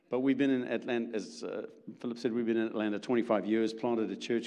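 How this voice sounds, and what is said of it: South African accent. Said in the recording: “my accent is a little different. We're from originally South Africa”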